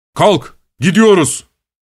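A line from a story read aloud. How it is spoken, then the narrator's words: Shouted. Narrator (Turkish): diye bağırdı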